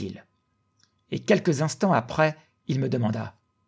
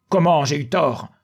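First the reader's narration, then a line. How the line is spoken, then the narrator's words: Exclaimed. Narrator (French): s'écria-t-il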